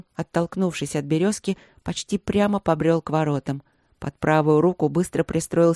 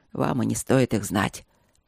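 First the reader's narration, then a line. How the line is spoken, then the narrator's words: Grumbled. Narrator (Russian): пробурчала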